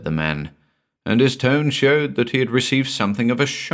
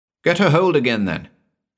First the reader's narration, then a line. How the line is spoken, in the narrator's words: said Captain Gannington, irritably